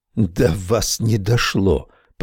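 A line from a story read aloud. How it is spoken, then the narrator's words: Hoarse rasp. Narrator (Russian): прохрипели губы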